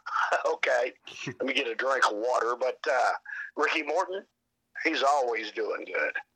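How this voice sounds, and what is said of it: Hoarse voice. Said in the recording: “Right now, I'm a little hoarse, and I don't know why.”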